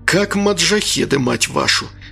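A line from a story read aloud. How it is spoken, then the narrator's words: Muttering. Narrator (Russian): пробурчал Анатолий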